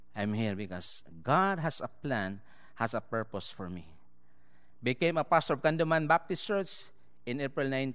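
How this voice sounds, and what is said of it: Filipino English accent. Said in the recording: “in Philippines, we have our own language and we have our own English accent. That's why some of you sometimes it's hard to, oh, what ... talking about? But that's my own accent. But I try to speak in an American accent.”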